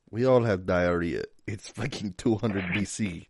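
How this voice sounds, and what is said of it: Put-on Russian accent. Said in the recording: “had a Russian accent just then”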